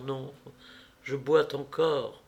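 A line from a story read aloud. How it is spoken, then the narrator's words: Very soft, gentle. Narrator (French): dit-elle tout doucement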